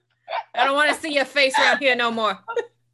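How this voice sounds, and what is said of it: Attempted Boston accent. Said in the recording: “that's actually a New Yorker accent... I don't know how to do a Boston accent.”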